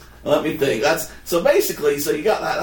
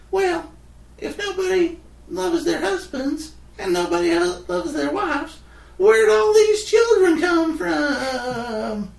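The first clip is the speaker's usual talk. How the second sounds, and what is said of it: Imitates a rodeo clown's voice. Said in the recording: “That's my rodeo impression.”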